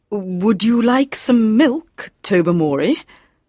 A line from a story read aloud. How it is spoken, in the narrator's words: the hostess, Lady Blemley, said nervously